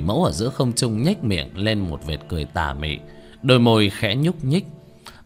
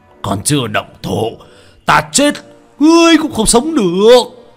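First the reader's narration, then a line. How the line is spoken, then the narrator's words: Sudden strained shout. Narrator (Vietnamese): Âm Dương Sư sắc mặt lúc trắng lúc xanh, đột nhiên gân giọng, mà hét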